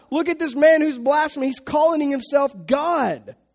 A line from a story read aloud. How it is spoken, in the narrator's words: the high priest tears his clothes and he screams out